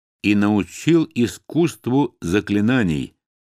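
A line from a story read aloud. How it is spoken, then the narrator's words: Slow, deliberate speech. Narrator (Russian): медленно произнес Сухай наконец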